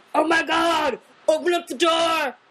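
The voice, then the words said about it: Yelled imitation of another person's voice. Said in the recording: “I'm Seth Rogen, I'm yelling on my lines. ... That was a great impression.”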